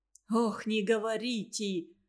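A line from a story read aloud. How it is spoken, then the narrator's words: Heavy sigh. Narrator (Russian): Прохор Фролович тяжело вздохнул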